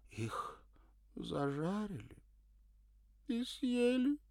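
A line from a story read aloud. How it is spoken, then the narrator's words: Sobbing. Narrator (Russian): всхлипнула она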